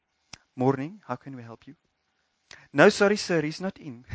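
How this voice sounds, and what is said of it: Put-on Afrikaans English accent. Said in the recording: “it's still that classic Afrikaans English accent.”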